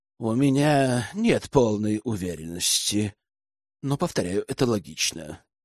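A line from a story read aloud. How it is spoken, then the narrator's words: Grim confirmation. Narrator (Russian): мрачно подтвердил Ивар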